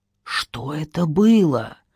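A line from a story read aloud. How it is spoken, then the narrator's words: Frightened whisper. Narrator (Russian): испуганно прошептала Ольга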